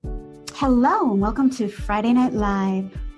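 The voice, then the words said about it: Radio announcer voice. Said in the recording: “That was my radio station voice.”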